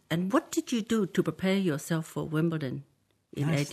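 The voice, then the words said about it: Slight put-on Japanese accent. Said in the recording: “Nice Japanese accent. ... That was just it was just a slight Japanese accent, wasn't it? Like, didn't overdo it.”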